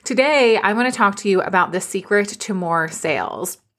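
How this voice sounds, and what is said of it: Slightly raspy voice. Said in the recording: “I sound the way that I do, a little bit raspy. It's just from screaming”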